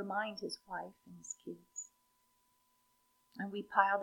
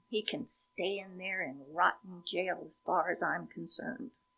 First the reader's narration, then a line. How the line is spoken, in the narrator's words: we growl